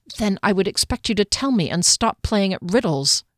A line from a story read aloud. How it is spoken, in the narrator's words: she said crossly